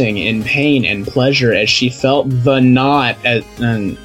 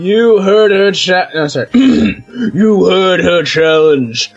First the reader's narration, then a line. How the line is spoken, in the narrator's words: growled the middle head happily